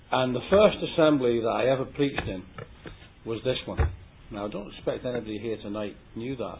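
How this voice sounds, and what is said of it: English accent. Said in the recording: “you can tell from this accent ... I moved up from England to live in Scotland”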